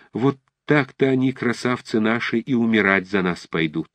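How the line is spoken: Loud exclamation, old woman. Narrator (Russian): Какая-то пожилая высокая женщина вдруг громко восклицает

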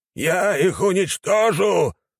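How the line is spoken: Young man howling. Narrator (Russian): взвыл молодой

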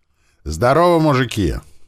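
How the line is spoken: Cheerful, smiling. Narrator (Russian): радостно улыбнулся

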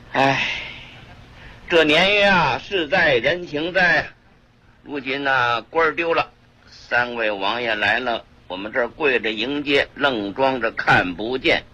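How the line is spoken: Sighing. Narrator (Chinese): 刘墉 直叹气

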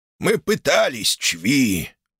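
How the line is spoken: Creaky rasp. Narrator (Russian): проскрипел Малефик и тут же зашелся надсадным кашлем с кровью

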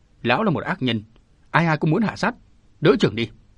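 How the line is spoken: Shout. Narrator (Vietnamese): Nó còn quát

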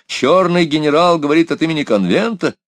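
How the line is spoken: Crowd shouting. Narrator (Russian): кричали

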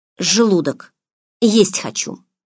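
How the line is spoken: Strained, forced out. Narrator (Russian): выдавила из себя

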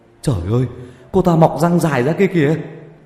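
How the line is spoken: Frightened boy's cry. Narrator (Vietnamese): Có một cậu còn sợ hãi thốt lên

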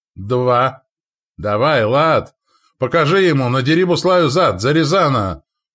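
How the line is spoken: Shouted. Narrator (Russian): прокричал Радко

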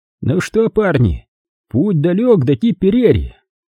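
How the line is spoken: Cheerful soldier's shout. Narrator (Russian): Один из немецких солдат весело крикнул пленным

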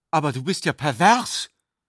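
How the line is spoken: Sudden prophetic warning. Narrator (German): rief sie plötzlich im Ton einer warnenden Prophezeiung aus

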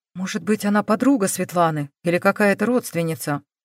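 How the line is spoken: Fervent whisper. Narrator (Russian): горячо зашептала Грайлих

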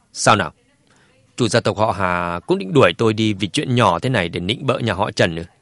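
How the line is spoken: Cold sneering retort. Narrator (Vietnamese): Dương Chấn cười nhạt, hỏi ngược lại

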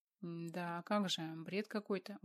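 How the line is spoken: Dejected voice. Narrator (Russian): упавшим голосом сказал Адам

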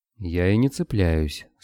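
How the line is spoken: Calm reply. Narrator (Russian): спокойно отозвался Строев

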